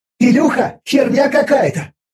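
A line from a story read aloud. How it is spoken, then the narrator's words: Agitated. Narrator (Russian): взволнованно заговорила Виза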